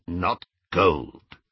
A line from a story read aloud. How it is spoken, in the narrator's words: said Griphook